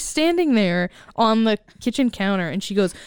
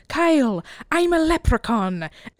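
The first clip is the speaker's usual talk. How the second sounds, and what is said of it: Put-on leprechaun-style accent. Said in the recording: “Good accent”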